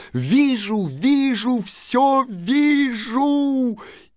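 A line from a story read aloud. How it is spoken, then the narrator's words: Sudden shout. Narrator (Russian): она закричала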